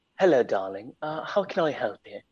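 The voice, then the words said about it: Put-on British accent. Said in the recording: “Anything about his accent or where he was from? ... he was British”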